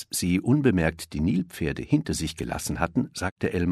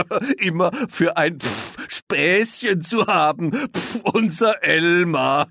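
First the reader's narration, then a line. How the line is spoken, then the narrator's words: Hippos laughing. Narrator (German): lachten die Nilpferde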